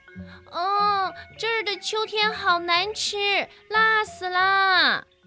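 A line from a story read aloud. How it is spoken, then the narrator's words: Squeaky loud cry. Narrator (Chinese): 小老鼠吱吱地大叫起来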